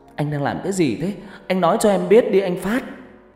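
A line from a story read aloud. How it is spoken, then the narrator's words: Choked-up voice. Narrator (Vietnamese): Hân nói bằng giọng nghẹn ngào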